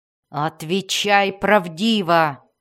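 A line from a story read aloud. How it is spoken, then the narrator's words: Growled. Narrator (Russian): прорычала Мелис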